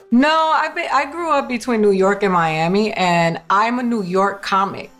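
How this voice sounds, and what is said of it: New York accent. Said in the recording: “you have the good New York accent, which also marks you as a New Yorker”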